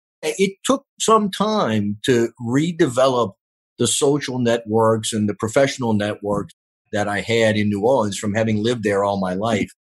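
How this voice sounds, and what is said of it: New Orleans accent, Boston-like. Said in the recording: “you might hear that I speak with something of an accent. This accent in New Orleans identifies me with a particular group from a particular part of town ... Here in DC, people think I'm from Boston or New York”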